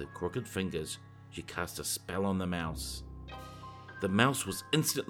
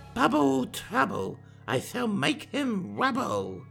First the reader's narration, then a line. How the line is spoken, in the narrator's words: with one large cackle she cried